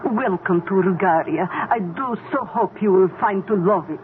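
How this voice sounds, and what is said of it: Put-on Bulgarian tour guide accent. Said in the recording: “You like my tour guide accent? ... But you don't have an accent when you speak Dutch.”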